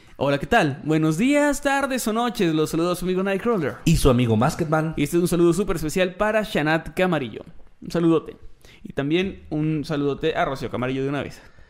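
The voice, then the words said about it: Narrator voice. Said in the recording (Spanish): “voz de narrador”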